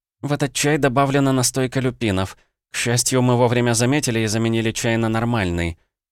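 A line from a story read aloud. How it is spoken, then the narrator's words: Housekeeper's quick sighing addition. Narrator (Russian): Экономка вздохнув еще раз, быстро добавила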